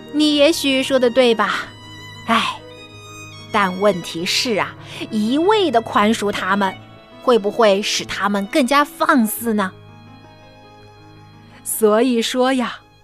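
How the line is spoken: Sighing old woman. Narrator (Chinese): 老大妈 叹了一口气

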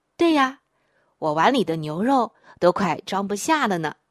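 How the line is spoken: Child, laughing. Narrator (Chinese): 儿子笑着说

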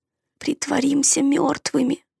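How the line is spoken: Hoarse. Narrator (Russian): хрипло сказал Дак

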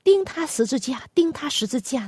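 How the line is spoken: Loud shouting. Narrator (Chinese): 大声的喊叫说

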